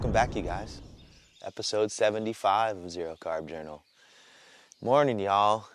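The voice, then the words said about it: Tired, worn-out voice. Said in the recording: “maybe you can hear it in my voice ... It's sort of a zero-carb hangover, I guess. ... I'm tired.”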